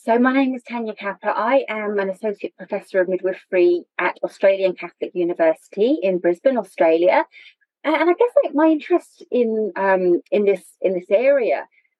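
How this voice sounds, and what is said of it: British English accent. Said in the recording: “as you're probably able to tell from my accent, I am originally from the UK”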